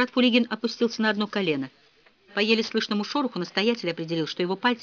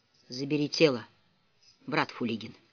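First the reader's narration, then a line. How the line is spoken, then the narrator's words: Abbot speaking quietly. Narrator (Russian): настоятель негромко произнес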